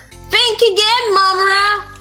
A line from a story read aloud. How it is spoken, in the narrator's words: Chitara yelled from behind him